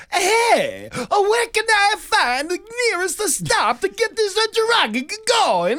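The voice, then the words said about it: Cartoonish stereotypical Italian accent. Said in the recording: “like stereotypical like cartoon Italian voice ... cartoon voice”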